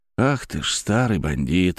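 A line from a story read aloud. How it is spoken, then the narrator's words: Affectionate speech. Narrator (Russian): ласково проговорил я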